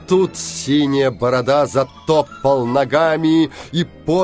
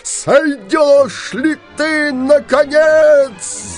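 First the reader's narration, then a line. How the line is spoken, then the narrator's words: Yelling. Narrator (Russian): завопил Синяя Борода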